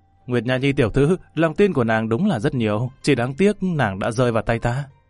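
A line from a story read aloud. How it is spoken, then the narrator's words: Loud laughter. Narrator (Vietnamese): Lâm Văn Vinh cười lớn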